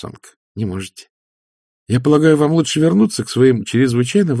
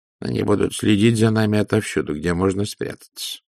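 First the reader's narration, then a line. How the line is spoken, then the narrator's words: Muttering. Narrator (Russian): пробормотал Людзе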